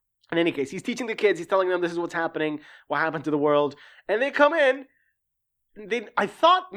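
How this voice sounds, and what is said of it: Usual voice. Nothing is said of it.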